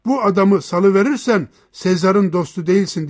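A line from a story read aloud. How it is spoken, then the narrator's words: Crowd shouting together. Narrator (Turkish): diye bağırıştılar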